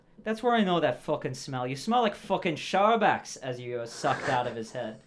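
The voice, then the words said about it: Bad put-on Scottish accent. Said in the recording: “Sounded like Scottish to me. It sounded Scottish to me, too. ... It sounded extremely Scottish. ... Yeah, it sounded like a bad Scottish.”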